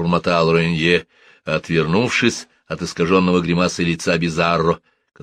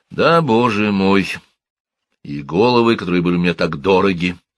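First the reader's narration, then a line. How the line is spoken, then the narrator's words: Hollow muffled voice. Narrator (Russian): ответил Рене глухим голосом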